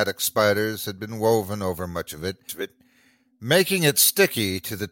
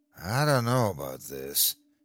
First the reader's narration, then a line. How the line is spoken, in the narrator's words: he moaned to his sister